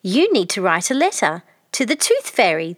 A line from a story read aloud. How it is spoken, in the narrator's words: they exclaimed